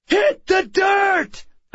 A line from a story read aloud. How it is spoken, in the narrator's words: I shouted